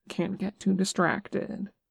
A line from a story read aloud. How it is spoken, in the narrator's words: Nick said softly